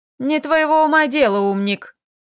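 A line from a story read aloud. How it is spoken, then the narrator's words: Almost cheerful snort. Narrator (Russian): Почти весело фыркнула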